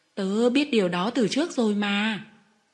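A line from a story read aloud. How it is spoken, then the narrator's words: Smiling reply. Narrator (Vietnamese): Nó mỉm cười trả lời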